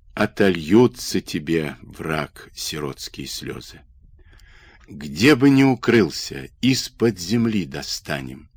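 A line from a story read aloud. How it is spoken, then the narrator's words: Parched whisper. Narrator (Russian): шептал запекшимися губами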